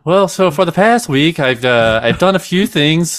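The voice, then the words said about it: Put-on Irish accent. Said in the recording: “should I speak with an Irish accent ... definitely your best accent. That's pretty uh, good. ... you starting to sound Swedish a little bit.”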